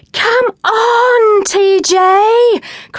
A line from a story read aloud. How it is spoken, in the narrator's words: cried the girls